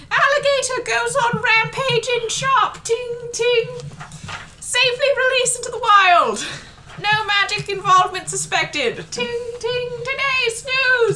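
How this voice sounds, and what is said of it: Yelling town crier character voice. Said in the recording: “he's yelling”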